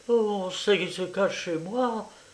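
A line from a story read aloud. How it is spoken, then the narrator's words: Stunned murmur. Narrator (French): murmura-t-elle abasourdie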